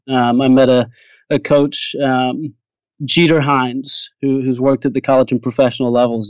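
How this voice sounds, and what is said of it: Mixed British-American mid-Atlantic accent. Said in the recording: “My accent is all messed up ... He put me right in the middle of the Atlantic Ocean. ... I'm a dual citizen, British and American”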